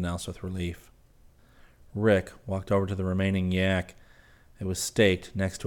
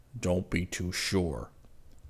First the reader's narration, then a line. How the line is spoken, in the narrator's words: Zircon contradicted gruffly